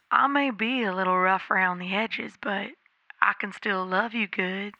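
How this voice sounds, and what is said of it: Imitated Kentucky southern accent. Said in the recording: “He was from Kentucky. He killed me with his adorable southern accent.”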